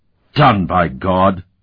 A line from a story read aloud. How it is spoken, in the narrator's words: He roared